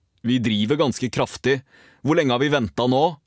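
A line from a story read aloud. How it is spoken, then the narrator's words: Called over shoulder. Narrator (Norwegian): ropte han over skulderen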